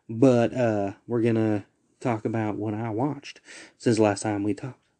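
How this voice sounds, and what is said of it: Exaggerated Southern US accent. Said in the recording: “I don't know why I'm going in a super southern accent.”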